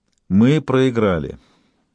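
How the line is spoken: Even, calm, confident. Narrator (Russian): ровным голосом повторил, спокойно, уверенно

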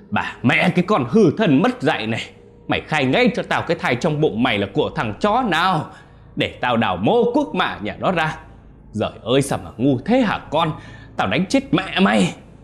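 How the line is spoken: Screamed. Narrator (Vietnamese): Ông ta gào lên

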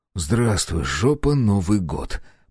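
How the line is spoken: Muttering. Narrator (Russian): пробормотал я

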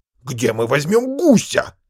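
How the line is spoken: Angry interruption. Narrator (Russian): сердито оборвал ее Гумберт

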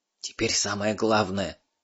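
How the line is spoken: Whispered. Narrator (Russian): Переводчик зашептал

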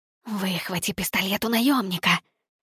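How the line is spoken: Urgent hiss. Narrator (Russian): прошипела Никс

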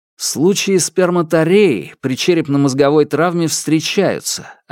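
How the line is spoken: Plain. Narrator (Russian): ответил я

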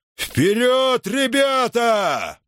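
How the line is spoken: Roar. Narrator (Russian): проревел Спартак

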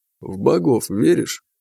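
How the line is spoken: Gentle question. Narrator (Russian): ласково спросил его Любомир

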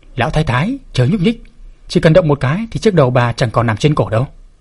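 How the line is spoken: Cold, close to the ear. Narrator (Vietnamese): Tiểu Tước Nhi ghé tai lão thái bà lạnh lùng nói

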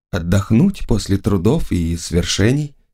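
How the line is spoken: Very quiet. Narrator (Russian): сказала она совсем тихо

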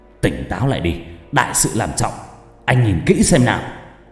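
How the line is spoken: Harsh, gritted voice. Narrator (Vietnamese): Hắn gằn giọng

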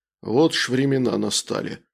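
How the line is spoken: Stunned thoughtful mutter. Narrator (Russian): задумчиво пробормотал ошарашенный кузнец

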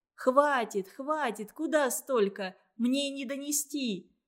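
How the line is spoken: Shout. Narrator (Russian): закричала Маша

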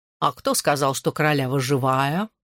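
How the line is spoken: Purring cat. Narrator (Russian): промурлыкал кот

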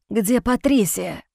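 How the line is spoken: Rasped. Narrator (Russian): прохрипел Чарли

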